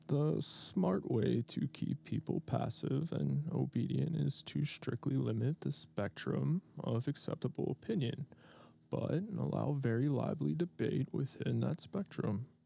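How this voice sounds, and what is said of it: Poor imitation of another person's voice. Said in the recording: “that was a horrible impression of Noam Chomsky”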